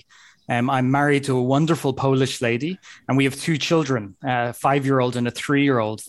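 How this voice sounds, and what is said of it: Irish accent. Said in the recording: “as you may hear by my accent, I'm originally from Ireland”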